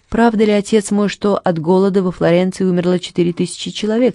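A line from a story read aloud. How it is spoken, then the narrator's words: Plain. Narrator (Russian): спросила Катерина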